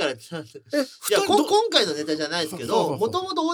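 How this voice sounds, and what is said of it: Usual voice. Nothing is said of it.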